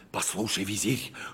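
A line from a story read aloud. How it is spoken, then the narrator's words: Whispered. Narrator (Russian): шепотом сказал Калиф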